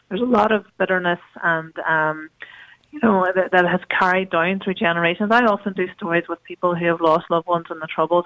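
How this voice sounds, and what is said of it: Hoarse, strained voice. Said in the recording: “excuse me for my voice, I'm losing my voice... I was very smoky up there last night”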